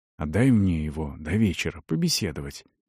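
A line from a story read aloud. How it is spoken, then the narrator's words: Quiet request. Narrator (Russian): негромко попросил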